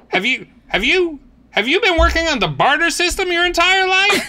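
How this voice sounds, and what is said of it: Put-on deep Southern accent. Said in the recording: “you fall in and out of this deep Southern accent... that last accent”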